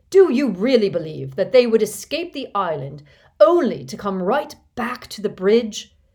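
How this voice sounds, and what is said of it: Shouted, terrible angry voice. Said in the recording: “shouted in his most terrible voice.”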